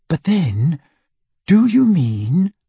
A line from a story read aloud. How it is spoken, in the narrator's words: said Hermione slowly, trying to keep any trace of scepticism out of her voice